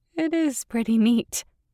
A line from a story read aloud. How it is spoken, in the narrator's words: I said, laughing somewhat nervously